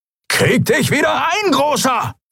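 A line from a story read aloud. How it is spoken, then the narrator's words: Shrieking. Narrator (German): kreischte Halbhorn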